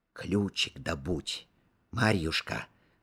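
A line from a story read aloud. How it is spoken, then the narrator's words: Whispering. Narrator (Russian): шептал Петр Васильевич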